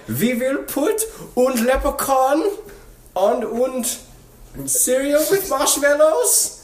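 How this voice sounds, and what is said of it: Mock German accent. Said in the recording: “I would talk like a Nazi about marketing programs for Aldi”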